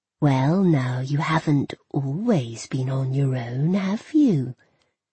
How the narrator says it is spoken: She said, her voice sly, quiet

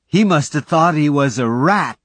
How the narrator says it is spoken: Willard cried

